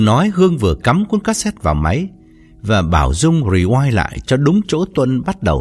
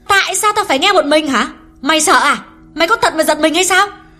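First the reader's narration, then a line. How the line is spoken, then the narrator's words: Growing angrier. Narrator (Vietnamese): Hương càng giận dữ hơn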